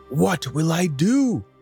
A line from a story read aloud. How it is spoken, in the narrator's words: the woodman cried